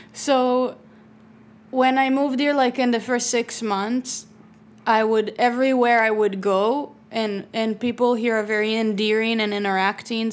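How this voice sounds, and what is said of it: Heavy foreign accent. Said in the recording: “Jasmine had a heavy accent.”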